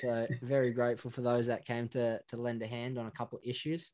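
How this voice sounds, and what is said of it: Strong Australian accent. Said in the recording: “Probably not sort of the big Australian accent I've got”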